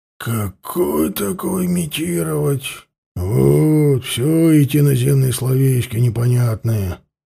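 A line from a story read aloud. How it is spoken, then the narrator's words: Grumbling. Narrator (Russian): проворчал ветеран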